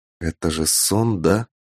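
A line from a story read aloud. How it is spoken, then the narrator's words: Whisper. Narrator (Russian): прошептал я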